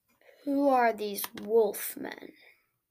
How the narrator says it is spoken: he asked

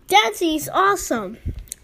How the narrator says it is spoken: shouted

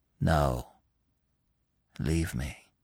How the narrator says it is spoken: Gobbo answered quietly

